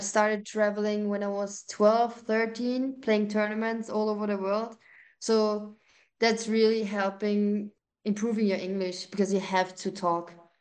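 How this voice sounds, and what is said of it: Austrian accent. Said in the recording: “I love your accent from Austria”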